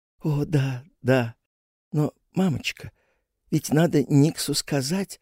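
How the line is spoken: Barely audible, excited. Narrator (Russian): чуть слышно, взволнованно сказала Мета

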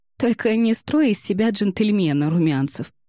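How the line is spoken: Giggling. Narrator (Russian): хихикнула Ксюша

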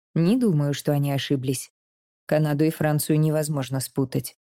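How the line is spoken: Serious. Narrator (Russian): серьезным тоном отвечает отец

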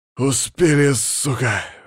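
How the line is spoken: Breathless exhale. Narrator (Russian): выдохнул машинист

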